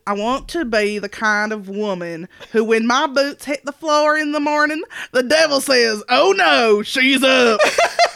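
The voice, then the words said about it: Put-on country accent. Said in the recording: “a little country accent”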